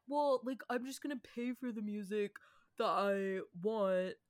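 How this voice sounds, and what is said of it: Mimics a teenage frat-bro voice. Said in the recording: “I'm mimicking myself as if I'm a teenage boy ... like a frat bro.”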